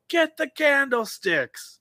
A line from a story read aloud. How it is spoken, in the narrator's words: we yell